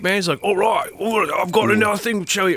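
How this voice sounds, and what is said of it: Bad put-on Australian accent. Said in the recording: “that's terrible Australian accent.”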